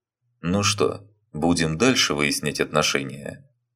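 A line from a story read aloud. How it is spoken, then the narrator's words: Calm, somewhat childish. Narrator (Russian): Спокойно, даже как-то инфантильно, спросил Фёдор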